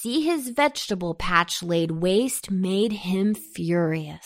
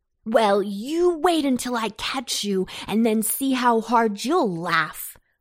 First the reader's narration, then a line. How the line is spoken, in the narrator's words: called Antone angrily